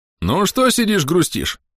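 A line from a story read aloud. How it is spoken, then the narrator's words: Cheerful question. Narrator (Russian): весело поинтересовался Ксагриф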